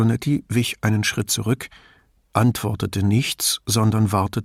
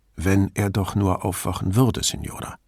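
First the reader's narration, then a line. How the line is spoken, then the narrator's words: Calm voice. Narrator (German): sagte Brunetti schließlich mit ruhiger Stimme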